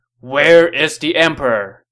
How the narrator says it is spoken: A general yelled

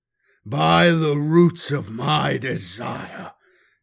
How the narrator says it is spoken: Gundrum boomed

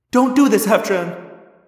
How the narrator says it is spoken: I cried

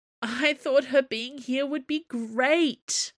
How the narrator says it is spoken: Chevreuse moaned

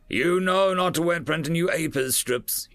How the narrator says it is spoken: he shouted

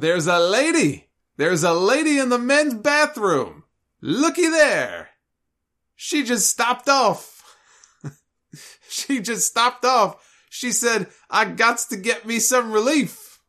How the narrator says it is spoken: And then he shouted

